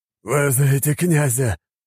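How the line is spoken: Hoarse, over intercom. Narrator (Russian): прохрипел командир одного из автомобилей по внутренней связи

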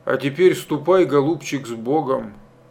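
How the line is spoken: Quiet request. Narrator (Russian): тихо попросил Семен Азартович

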